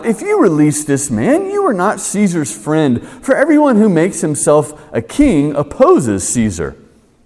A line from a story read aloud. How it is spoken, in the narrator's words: the Jews cried out